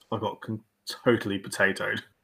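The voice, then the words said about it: Posh English accent. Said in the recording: “if you say it in a posh English accent”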